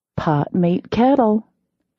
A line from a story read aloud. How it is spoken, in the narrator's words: I said sweetly